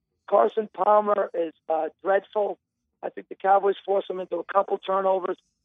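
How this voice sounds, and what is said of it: Strained, failing voice. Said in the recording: “my voice wasn't going”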